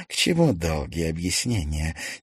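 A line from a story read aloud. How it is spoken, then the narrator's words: Quiet question. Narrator (Russian): тихо спросила Даша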